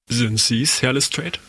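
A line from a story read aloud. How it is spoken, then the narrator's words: Plain. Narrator (German): sagte Holmes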